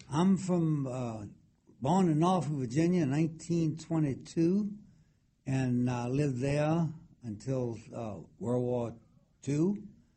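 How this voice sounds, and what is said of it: Distinct Tidewater Virginia accent. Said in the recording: “you definitely have that Tidewater accent ... Very, very distinct.”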